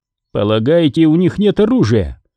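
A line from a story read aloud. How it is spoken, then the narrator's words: Skeptical snort. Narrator (Russian): хмыкнул Синицын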